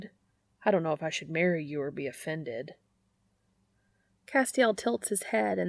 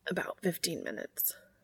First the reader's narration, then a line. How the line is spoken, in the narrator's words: Cass whispers, voice hoarse